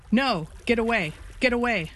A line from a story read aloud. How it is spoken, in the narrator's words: they cried, terrified of the chum line that streamed from Smith's hand